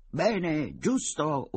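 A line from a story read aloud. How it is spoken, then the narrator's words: Shouting in chorus. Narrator (Italian): urlarono in coro i soci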